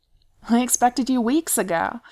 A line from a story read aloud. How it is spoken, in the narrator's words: Beaufort calls cheerfully from the other room